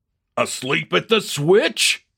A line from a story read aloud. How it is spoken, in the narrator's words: yelled a delighted fan